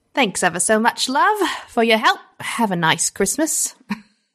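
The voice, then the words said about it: Put-on British accent. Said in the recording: “try to do my British accent”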